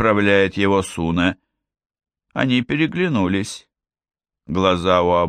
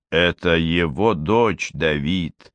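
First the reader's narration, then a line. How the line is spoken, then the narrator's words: Muffled blurt. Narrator (Russian): глухо вырвалась у Суна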